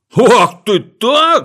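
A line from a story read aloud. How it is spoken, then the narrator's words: Angry shout. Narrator (Russian): закричал разозлившись Винтик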